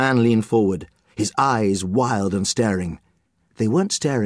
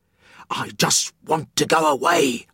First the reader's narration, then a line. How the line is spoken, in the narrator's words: the man hissed